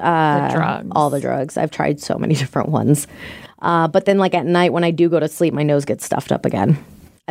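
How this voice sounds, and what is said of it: Raspy, congested voice. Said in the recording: “Yeah, you definitely don't sound amazing, but you sound better... if you guys like this raspy voice”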